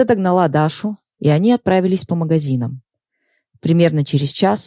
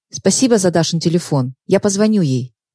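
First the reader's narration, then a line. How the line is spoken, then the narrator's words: Hurried. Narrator (Russian): торопливо сказала она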